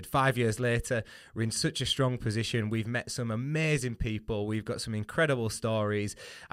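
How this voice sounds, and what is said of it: Northern English accent. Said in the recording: “a very northern accent”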